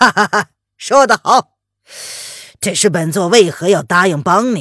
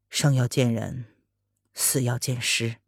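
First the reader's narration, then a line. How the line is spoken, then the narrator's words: Slow. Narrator (Chinese): 风清晨…慢慢的说道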